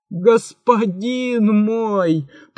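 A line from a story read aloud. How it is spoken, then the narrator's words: Groaning. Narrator (Russian): простонал великий визирь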